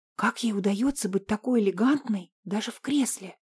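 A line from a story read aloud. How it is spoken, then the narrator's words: Whisper. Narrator (Russian): шепнула Марина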